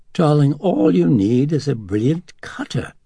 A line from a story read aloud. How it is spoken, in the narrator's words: Dennings cackled